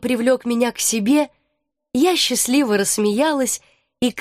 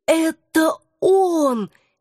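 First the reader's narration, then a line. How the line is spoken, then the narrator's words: Hoarse whisper. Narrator (Russian): сипло прошептала я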